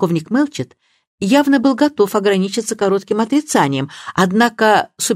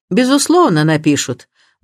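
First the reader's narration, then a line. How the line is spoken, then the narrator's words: Gloomy tone. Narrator (Russian): мрачным тоном промолвил суперинтендант Харпер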